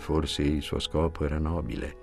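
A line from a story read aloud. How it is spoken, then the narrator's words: Humble tone. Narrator (Italian): disse Cocoa in tono umile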